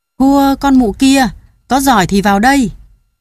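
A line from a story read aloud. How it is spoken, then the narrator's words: Loud shout. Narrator (Vietnamese): nó mới nhảy ra hét lớn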